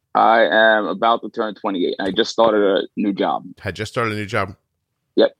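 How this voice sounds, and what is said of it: Regional non-Texan accent. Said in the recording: “your accent must have stuck out in Texas like a sore thumb”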